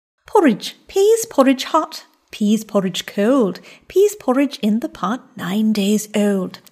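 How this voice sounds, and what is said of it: Put-on posh English accent. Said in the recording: “That's how I learned to do a high English accent ... Well, you still got it.”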